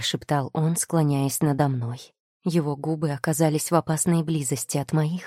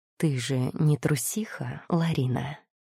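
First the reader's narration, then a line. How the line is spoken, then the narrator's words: Muted, soft, seductive. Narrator (Russian): Его приглушенный вкрадчивый голос мягко и соблазнительно коснулся моего слуха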